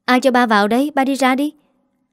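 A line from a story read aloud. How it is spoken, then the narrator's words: Shouting. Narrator (Vietnamese): Nó quát bà nó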